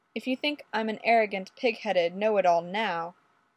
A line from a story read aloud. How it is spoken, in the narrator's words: Fraser murmured wryly